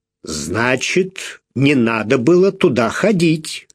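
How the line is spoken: Stern reproach. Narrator (Russian): строго сказал Малкольм, явно укоряя ее

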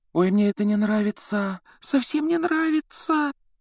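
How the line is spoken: Frightened whisper. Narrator (Russian): Гермиона испуганно шептала

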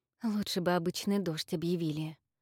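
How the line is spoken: Muttered. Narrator (Russian): пробормотала Инна

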